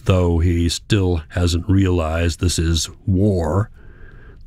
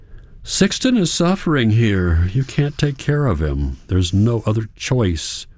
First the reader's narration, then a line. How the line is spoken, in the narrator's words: Hans continues with a sigh